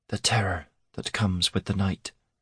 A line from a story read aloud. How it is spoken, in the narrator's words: Vico whispered